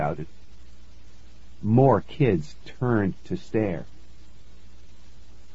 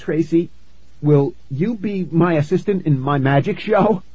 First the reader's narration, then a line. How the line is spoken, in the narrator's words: I blurted out